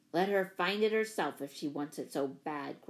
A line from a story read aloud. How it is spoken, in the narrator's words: grunted Don